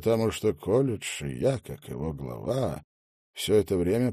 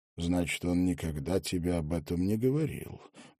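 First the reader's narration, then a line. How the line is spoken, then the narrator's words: Soft question. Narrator (Russian): мягко спросил магистр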